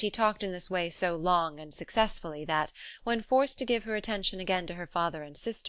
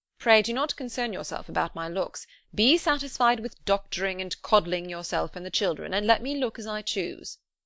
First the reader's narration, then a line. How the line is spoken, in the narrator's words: exclaimed he hastily